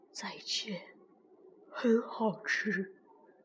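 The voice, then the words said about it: Soft, quiet voice. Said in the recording (Chinese): “霸王龙小声地说着”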